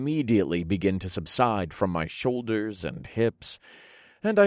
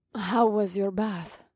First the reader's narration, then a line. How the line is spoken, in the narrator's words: Mahini purred